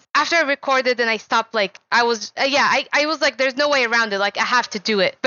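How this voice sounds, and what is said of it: Non-native English accent. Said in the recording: “people used to comment on my accent. And I know I still have an accent.”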